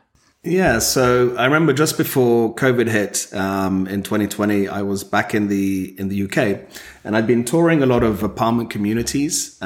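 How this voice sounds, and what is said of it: British accent. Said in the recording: “we can all hear your wonderful accent ... across the pond”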